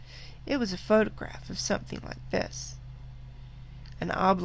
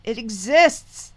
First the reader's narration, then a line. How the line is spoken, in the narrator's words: cried